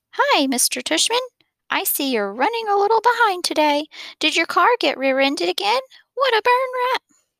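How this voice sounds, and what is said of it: Fake high old lady voice. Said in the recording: “He was using a fake, high old lady voice.”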